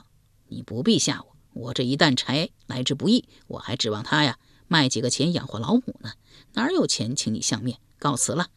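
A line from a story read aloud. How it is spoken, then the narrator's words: Laughing speech. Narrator (Chinese): 卖柴汉子又是一笑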